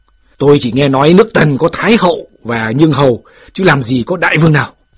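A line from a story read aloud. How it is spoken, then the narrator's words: Loud arguing voice. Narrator (Vietnamese): Phạm Thư còn đang lớn tiếng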